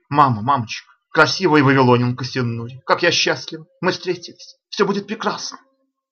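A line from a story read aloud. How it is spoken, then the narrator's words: Sobbing, repeating. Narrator (Russian): Мать сквозь всхлипывание повторяла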